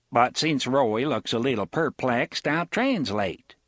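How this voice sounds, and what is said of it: Broad regional accent, character voice. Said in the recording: “in a broad mage's accent”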